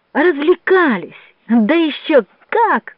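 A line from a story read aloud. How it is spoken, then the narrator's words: Breathless delighted exclaiming. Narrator (Russian): воскликнул Джованни захлебывающимся от восторга голоском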